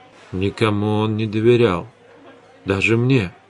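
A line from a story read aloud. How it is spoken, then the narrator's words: Muttered. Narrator (Russian): пробормотал Эдгар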